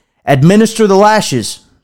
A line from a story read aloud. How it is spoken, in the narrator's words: said the king